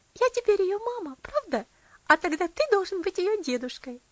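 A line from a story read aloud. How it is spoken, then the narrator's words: Girl laughing merrily. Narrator (Russian): И девочка весело рассмеялась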